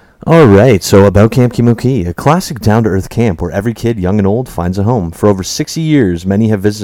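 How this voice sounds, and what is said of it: Usual voice. Nothing is said of it.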